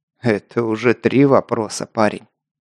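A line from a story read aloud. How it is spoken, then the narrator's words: Troll's smirking grunt. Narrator (Russian): хмыкнул тролль-директор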